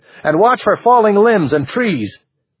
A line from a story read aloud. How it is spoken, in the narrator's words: Gordy shouted